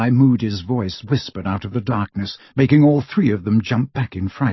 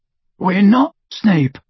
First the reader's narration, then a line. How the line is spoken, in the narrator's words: croaked Harry